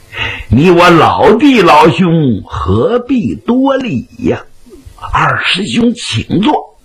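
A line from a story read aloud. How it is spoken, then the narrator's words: Laughing. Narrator (Chinese): 雪珠莲笑他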